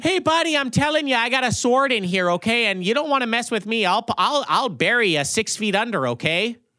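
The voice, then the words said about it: Exaggerated Midwestern American accent. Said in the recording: “standard ass Midwestern accent”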